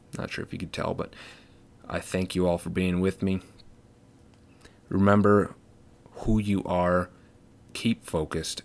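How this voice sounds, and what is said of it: Raspy, strained voice. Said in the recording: “My voice is kind of hurting today. A little raspy.”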